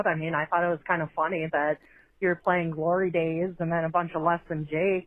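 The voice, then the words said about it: Midwestern American accent. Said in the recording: “her Midwestern accent”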